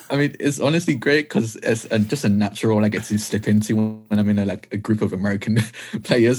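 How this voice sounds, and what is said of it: British accent. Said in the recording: “You've got the right accent for that... it was in the UK, everyone had the right accent... When I try to do an uppity, it always ends up sounding like your accent”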